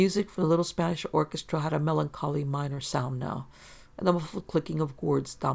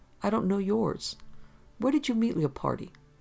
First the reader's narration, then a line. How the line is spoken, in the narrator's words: Steve sighed